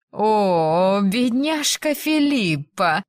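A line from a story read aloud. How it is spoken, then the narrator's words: Drawled, feigned sympathy. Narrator (Russian): протянула она сделанным сочувствием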